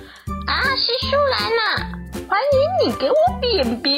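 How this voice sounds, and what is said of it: Usual voice. Nothing is said of it.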